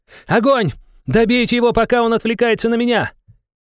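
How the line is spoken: Furious woman's shout. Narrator (Russian): женщина яростно выкрикнула

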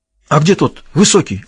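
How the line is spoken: Agitated question. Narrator (Russian): взволнованно спросил Севран

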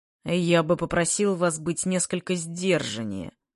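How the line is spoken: Through clenched teeth, mouth closed. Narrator (Russian): процедил он сквозь зубы, не раскрывая рта

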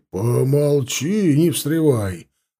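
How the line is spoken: Two voices barking together. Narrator (Russian): рявкнули одновременно оба дядьки

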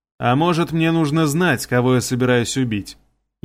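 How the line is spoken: Sarcastic reply. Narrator (Russian): ехидно ответил

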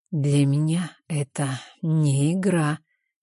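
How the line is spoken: Hoarse whisper. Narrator (Russian): его хриплый шепот

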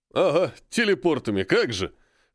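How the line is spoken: Snorting scoff. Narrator (Russian): хмыкнул дворецкий

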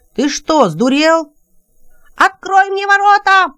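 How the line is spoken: Shouting up close. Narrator (Russian): закричал Тонор совсем близко от Тема

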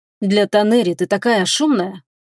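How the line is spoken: Weary exhale. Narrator (Russian): утомленно выдохнул он

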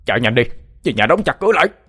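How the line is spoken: Shouting. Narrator (Vietnamese): Thầy Trạch Dương hét lên

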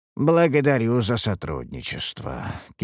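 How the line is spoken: Tired. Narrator (Russian): кивнул я устало

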